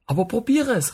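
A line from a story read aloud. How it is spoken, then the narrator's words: Calling out. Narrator (German): rief ich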